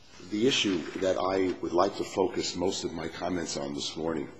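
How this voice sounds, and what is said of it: Voice sounds impaired or unwell. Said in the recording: “Pardon my voice.”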